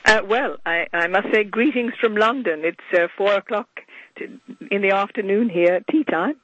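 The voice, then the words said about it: Hoarse voice from laryngitis. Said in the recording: “my voice is, I do have a touch of laryngitis.”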